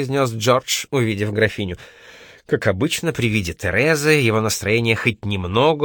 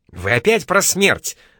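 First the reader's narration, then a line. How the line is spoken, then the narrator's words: Exclaimed. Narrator (Russian): воскликнул Хант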